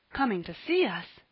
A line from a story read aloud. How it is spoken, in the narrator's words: he gasped